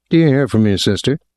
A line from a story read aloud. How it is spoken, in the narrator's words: he said in a flat, conversational tone